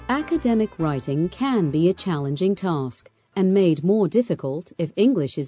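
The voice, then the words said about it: British accent. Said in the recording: “her distinctive accent that she hails from the old country across the pond ... talented British VO artists”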